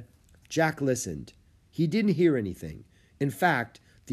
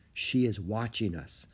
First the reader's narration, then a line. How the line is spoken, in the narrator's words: Tenzin whispered